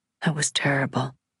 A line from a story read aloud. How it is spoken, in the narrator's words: he said to me in a low voice